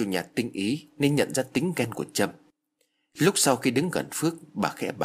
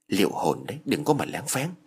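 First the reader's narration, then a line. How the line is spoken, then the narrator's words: Whisper. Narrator (Vietnamese): Trâm thì thầm vào tai của Phước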